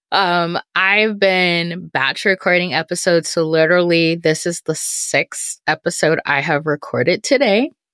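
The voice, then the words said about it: Worn-out, strained voice. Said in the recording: “my voice sounds horrible”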